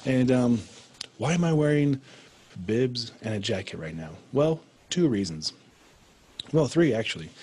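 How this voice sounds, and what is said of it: Raspy, hoarse voice. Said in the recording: “you can probably tell my voice is a lot raspier than normal”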